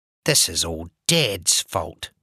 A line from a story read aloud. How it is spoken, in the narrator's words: muttered